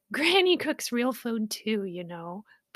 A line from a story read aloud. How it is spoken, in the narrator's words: Poppy laughed